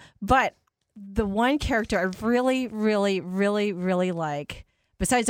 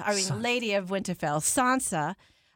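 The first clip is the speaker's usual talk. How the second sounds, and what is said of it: Put-on accent. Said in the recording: “you even got the accent going there.”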